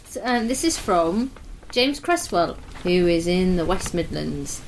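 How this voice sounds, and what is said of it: Usual voice. Nothing is said of it.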